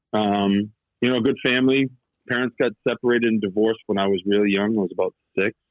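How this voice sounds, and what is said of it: Thick Boston accent. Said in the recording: “I grew up outside of Boston. I'm sure the accent comes through pretty thick.”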